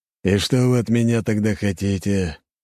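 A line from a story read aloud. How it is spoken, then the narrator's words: Tired sigh. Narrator (Russian): Устало вздохнув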